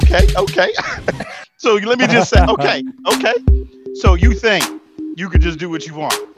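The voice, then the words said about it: Imitates another person's voice. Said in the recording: “my best Denzel impression”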